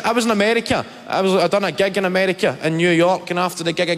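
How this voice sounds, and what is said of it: Scottish accent. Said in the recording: “The comedian Kevin Bridges there. It seems the Scottish accent”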